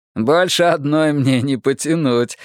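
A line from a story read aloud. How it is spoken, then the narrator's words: Laughing. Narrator (Russian): засмеялся Дэвид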